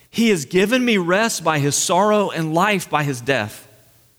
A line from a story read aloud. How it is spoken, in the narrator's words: Christian was relieved and delighted and exclaimed with a joyful heart